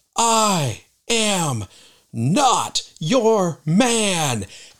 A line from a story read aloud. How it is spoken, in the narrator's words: he just yells out at the top of his voice